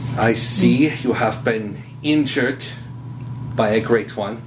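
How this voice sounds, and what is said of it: Character voice with an accent. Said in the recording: “with that accent”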